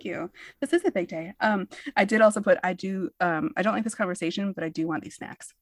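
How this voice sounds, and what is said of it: Usual voice. Nothing is said of it.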